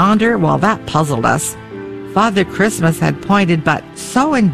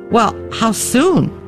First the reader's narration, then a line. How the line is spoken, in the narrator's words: cried Patty